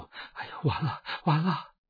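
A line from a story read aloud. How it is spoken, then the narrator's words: Panicked speech. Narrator (Chinese): 周氏脸色马上变了，惊慌的对那个女客说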